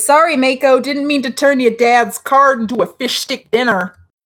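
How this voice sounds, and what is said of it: Put-on accent voice. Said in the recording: “that was rivaling Max's accent work”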